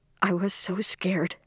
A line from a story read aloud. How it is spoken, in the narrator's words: Ellen whispered suddenly